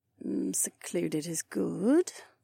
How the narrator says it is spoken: Kat murmured in a distinct tone

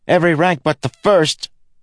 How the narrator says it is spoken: Kenton shouted back

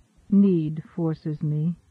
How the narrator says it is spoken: she answered sadly

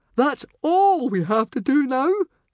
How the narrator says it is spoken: squealed Fishlegs

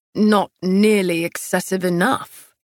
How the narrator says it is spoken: he grumbled

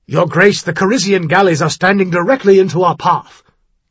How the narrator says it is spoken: Captain Mergen said harshly

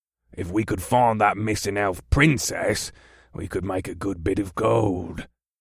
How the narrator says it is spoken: one of the other monsters grunted

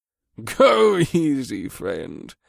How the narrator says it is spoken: Scourge chuckled

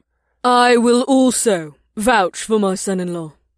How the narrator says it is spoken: Chief Ekname added in a clear voice that cut through the chatter of the crowd

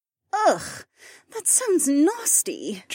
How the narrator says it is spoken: Janel groaned

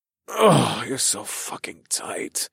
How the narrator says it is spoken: groaned

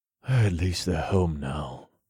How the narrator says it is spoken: I whispered

